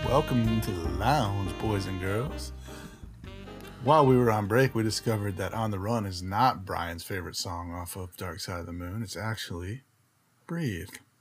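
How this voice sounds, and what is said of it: Soft, smooth radio-announcer voice. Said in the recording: “doing my best NPR voice ... It sounds a little more like Billy Dee Williams ... Little soft.”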